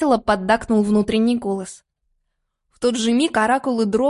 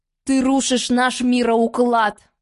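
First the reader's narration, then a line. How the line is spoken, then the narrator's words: Roaring. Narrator (Russian): Проревел герцог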